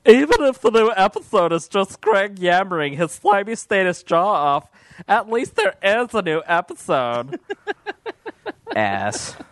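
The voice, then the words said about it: Imitates another person's voice. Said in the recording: “I'll do my Josiah Crones impression, because this is what he sounds like... best virgin impression”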